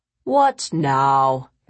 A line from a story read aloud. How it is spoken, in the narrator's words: Victoria grumbled